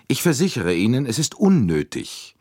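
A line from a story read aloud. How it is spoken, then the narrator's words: Repeated curtly. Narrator (German): wiederholte Andrenji schroff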